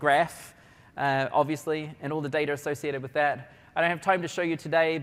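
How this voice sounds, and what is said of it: New Zealand accent. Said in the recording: “if you wondered where my accent was from ... I'm a New Zealander”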